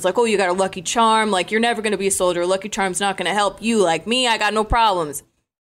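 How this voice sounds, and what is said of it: Mocking cocky soldier voice. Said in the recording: “You did a very good impression. ... It's alarming how good that was.”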